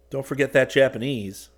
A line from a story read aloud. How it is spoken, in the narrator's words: Rick said